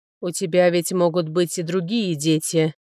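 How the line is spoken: Muffled, hollow voice. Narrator (Russian): глухо сказал Графирт

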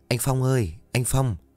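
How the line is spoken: Soft calling. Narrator (Vietnamese): khẽ gọi

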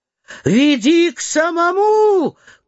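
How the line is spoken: Shout. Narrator (Russian): крикнул голос высокого малого

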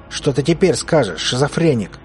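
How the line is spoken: Growl. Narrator (Russian): зарычал Клим

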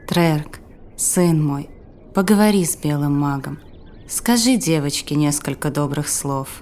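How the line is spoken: Quiet. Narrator (Russian): Мрарда негромко произнесла

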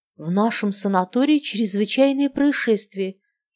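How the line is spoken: Barely audible woman's voice. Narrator (Russian): чуть слышно сказала женщина

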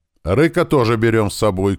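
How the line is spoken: Mother calling after. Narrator (Russian): крикнула вдогонку мама

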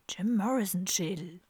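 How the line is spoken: Soft whisper. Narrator (German): flüsterte Kalle leise

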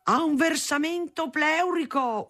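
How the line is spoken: Yelling. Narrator (Italian): urlava

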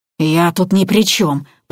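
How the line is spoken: Hoarse croak. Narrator (Russian): прохрипел возняк

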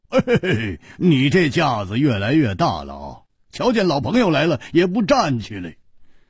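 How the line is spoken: Laughing. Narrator (Chinese): 胡铁花笑道

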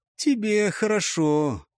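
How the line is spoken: Offended drawl. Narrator (Russian): обиженно протянул Тадга

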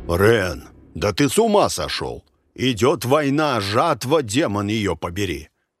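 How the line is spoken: Growling man. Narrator (Russian): Меджех рычал

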